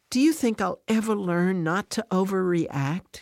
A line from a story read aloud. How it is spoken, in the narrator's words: she asks